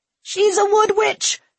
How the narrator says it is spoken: somebody else screamed

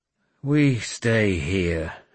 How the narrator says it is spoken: I growled

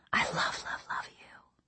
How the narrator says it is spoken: Mom ... whispering

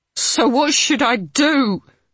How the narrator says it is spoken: the woman cried

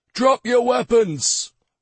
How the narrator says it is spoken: one of them shouted

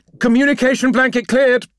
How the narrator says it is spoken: shouted the Augur officer

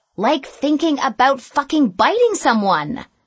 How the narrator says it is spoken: snapped Katie

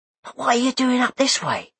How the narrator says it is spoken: whispered Jim

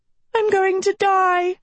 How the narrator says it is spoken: Sophie wailed as she fled the forest

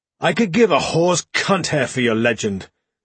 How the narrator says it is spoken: Darnell snapped

